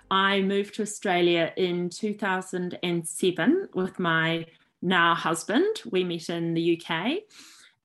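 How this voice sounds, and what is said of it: New Zealand accent. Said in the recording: “as may be obvious from my accent, originally from New Zealand.”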